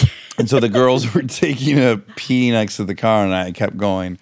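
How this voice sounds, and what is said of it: Usual voice. Nothing is said of it.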